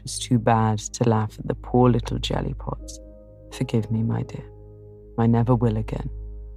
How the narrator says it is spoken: saying tenderly

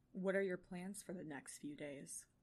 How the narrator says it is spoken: He asks, his voice low

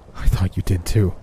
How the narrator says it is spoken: I replied, attempting to force out a falsified chuckle

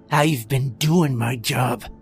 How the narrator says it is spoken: Croft growled

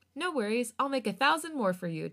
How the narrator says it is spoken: Changbin chuckled happily

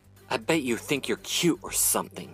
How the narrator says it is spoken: Sleek snarled

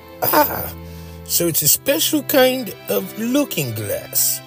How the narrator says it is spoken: he exclaimed

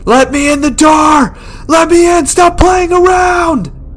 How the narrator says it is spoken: He's screaming

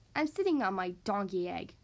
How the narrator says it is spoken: growled Bear

